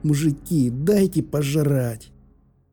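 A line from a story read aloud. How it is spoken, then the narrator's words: Pleading. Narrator (Russian): взмолился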